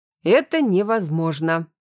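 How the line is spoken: General's sharp reply. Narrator (Russian): резко ответил генерал

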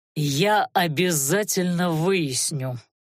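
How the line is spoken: Menacing, through teeth. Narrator (Russian): многообещающе процедил Анхайлик

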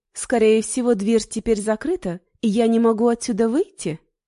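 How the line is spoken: Almost cheerful question. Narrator (Russian): спросила я почти весело

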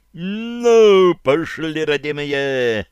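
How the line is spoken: Loud shout. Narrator (Russian): громко крикнув, исполнил приказ Гришка

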